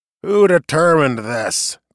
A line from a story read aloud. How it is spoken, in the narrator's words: growled